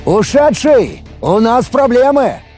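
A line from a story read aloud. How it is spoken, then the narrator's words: Shouted urgently. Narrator (Russian): прокричал я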